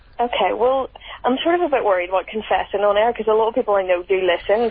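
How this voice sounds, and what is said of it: Ordinary London accent. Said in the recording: “She's quite a normal London voice.”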